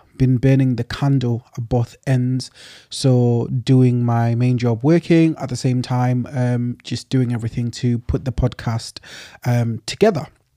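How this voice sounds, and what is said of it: Tired-sounding voice. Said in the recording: “I'm sure you can hear it in my voice, kind of tired”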